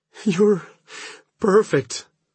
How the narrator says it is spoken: she pants

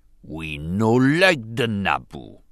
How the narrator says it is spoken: Bas Nass growled irritably

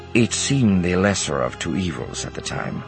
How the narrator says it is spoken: Card said grimly

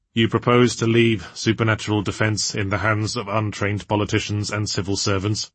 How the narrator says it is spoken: said Elizabeth flatly

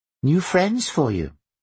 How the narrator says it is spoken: Varla said brightly

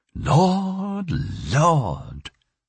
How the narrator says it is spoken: she sighed

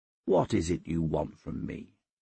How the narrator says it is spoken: I said quietly

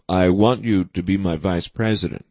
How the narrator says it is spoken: Durling said calmly

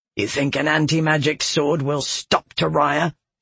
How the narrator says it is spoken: he growled

